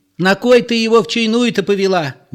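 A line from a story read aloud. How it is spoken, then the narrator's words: Shrill hysterical question. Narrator (Russian): визгливо спрашивала членораздельная Зоя, женщина вполне истеричная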